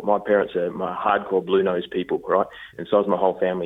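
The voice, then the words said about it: Australian accent. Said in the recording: “I'm an Aussie... people hear my accent”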